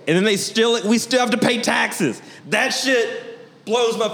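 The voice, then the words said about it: Yelling. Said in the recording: “sorry I'm yelling.”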